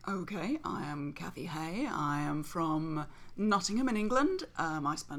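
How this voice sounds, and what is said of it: English accent. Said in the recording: “beautiful English accent ... the one with the English accent”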